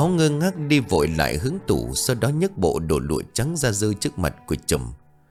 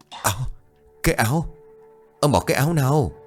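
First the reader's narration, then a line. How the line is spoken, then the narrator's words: Trembling old voice. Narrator (Vietnamese): Ông Báu giọng run rẩy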